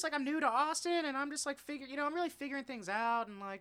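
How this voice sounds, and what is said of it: Imitates a young woman's voice. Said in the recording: “spot on girl impersonation ... It's pretty good.”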